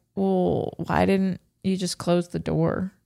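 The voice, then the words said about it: Deep Southern American accent. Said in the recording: “one of them's got a very deep Southern accent.”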